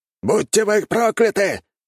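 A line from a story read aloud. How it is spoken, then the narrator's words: Shout, warrior. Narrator (Russian): выкрикнул воин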